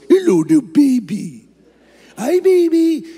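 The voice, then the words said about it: Small baby-talk voice. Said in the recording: “talking to the baby in a little voice”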